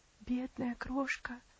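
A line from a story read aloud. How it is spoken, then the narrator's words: Muttering. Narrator (Russian): пробормотала Аделаид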